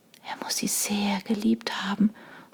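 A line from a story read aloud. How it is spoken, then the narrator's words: Whispered to herself. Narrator (German): flüsterte Sarah mehr zu sich selbst als zu den anderen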